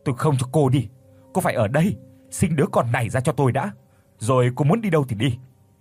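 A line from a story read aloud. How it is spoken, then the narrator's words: Frenzied near-shout. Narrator (Vietnamese): Tuấn điên cuồng nói như hét lên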